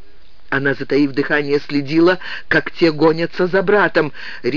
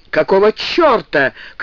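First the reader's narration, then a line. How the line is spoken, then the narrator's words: Shout. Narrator (Russian): крикнул Джек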